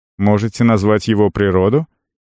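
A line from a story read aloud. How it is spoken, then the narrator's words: Dead man's snort. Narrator (Russian): Мертвец хмыкнул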